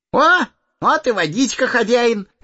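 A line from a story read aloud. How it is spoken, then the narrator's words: Cheerful. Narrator (Russian): весело сказал он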